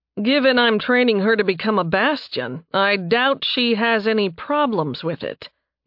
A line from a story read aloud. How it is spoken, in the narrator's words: Nathan said dryly